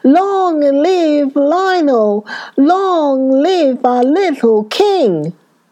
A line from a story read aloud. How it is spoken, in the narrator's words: thousands of people shouting